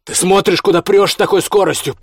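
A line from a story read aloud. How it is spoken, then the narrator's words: Shouting German mixed with Russian swearing. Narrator (Russian): по-немецки кричал Костя вперемешку с русским матом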